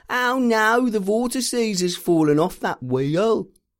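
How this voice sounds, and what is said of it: Imitates another person's voice. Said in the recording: “He thinks that impression of him isn't good, but you're about to listen to him on the show and you will see that it's perfect.”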